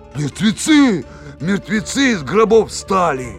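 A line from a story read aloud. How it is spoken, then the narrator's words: Shouting. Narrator (Russian): Да как закричат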